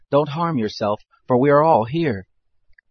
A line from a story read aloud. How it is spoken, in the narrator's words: Paul cried with a loud voice, saying